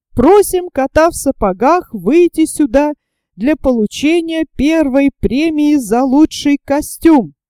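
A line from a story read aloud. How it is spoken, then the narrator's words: Ringing voice. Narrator (Russian): наша вожатая Люся сказала звонким голосом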